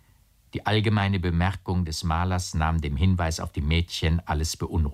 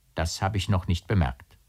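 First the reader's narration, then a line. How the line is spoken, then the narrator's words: Plain. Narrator (German): sagte K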